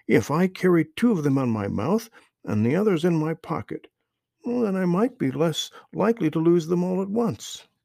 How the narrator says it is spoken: exclaimed

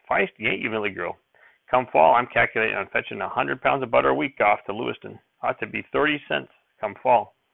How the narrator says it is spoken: Grandfather chuckled

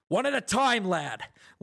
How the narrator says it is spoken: One shout from the stand seemed to separate from the others

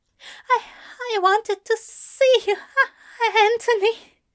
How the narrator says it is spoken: he whimpers brokenly

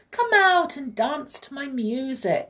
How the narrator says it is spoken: he cried

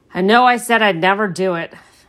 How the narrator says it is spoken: Caspian said

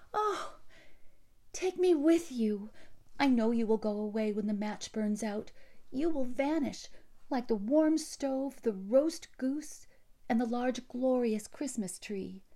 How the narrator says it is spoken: cried the little one

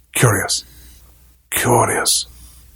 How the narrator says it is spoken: still muttering

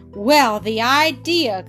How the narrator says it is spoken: cried the big goat

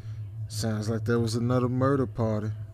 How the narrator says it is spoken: sighed and said

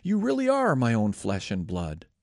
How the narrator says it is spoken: Laban exclaimed

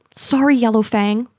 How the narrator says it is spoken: Pool Cloud says

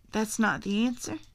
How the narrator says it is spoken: said Uncle Jack

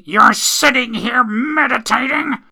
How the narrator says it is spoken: screaming

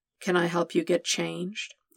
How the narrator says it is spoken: He asked, letting his voice drop to a murmur in Peter's ear

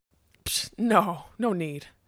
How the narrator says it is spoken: Smendrick chuckled

